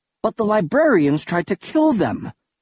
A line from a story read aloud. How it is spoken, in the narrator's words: I exclaimed